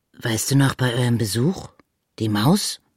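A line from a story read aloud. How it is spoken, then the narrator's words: Plain question. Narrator (German): fragte Pitt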